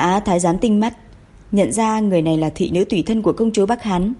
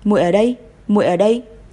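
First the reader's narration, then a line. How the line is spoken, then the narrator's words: Trembling choked sobbing. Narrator (Vietnamese): run rẩy, nghẹn ngào nói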